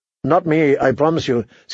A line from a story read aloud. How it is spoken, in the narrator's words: said Cersei